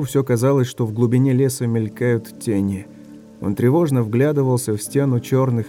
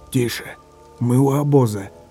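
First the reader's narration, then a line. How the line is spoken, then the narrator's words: Hiss. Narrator (Russian): Чистоплюй что-то прошипел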